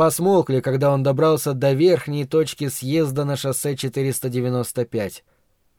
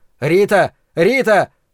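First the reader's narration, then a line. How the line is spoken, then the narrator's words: Shouting through cupped hands. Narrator (Russian): рупором сложил ладони у рта и закричал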